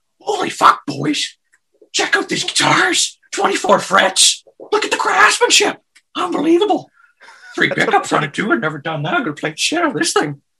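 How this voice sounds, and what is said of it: Impersonates a TV character's voice. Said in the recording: “That's a damn good Bubbles impersonation.”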